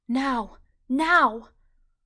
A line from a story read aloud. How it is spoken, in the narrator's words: Her heart cried out